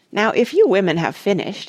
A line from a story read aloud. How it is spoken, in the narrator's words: said Parrot in a loud and embarrassed voice